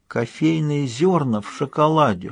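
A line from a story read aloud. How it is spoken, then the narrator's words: Whisper. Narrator (Russian): шепотом произнесла Сьюзан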